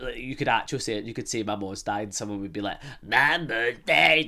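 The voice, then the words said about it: Scottish accent. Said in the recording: “it's a lot lighter than the Scottish accent ... your Scottish accent becomes like the laughing stock”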